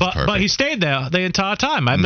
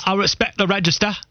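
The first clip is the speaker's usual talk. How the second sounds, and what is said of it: Russell Brand impression. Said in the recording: “Can you give us more Russell Brand impersonations? ... Sound a little bit like him. ... it's pretty good. It's very good.”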